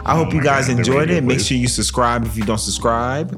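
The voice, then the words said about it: Radio announcer voice. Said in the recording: “I'm using my radio voice right now.”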